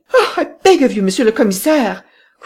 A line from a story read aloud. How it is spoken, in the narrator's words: cried Madame Renaud